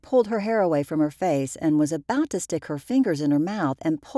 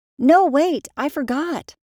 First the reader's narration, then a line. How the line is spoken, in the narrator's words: cried Nora's mom